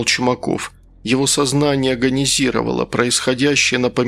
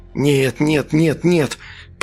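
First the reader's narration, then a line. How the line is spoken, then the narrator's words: Straining hiss. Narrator (Russian): прошипел Чумаков, наваливаясь на дверь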